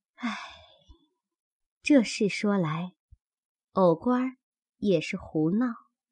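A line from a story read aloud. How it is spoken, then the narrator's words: Tearful sigh. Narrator (Chinese): 方官眼圈一红，又叹一口气道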